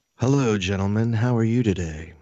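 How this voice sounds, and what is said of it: Put-on sexy voice. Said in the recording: “he's got his sexy voice”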